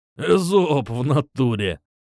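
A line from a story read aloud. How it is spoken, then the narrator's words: Loud guffaw. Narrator (Russian): захохотал Матвеич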